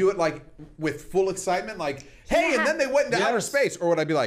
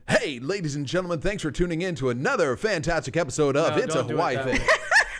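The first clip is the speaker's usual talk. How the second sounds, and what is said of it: Exaggerated radio announcer voice. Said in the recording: “He's gonna do his radio voice for you ... Sounds like you're puking.”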